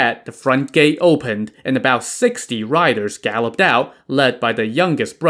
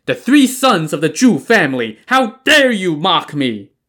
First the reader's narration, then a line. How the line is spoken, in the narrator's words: Li Ying shouted